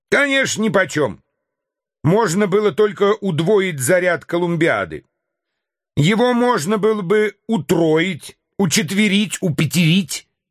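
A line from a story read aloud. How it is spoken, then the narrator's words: Increasingly heated shouting. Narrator (Russian): кричал Мишель, все больше разгорячаясь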